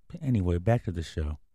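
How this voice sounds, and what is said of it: Calm, soothing delivery. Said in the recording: “In a calm voice.”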